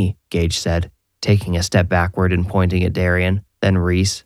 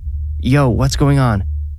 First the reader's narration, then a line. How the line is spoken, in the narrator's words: Gage exclaimed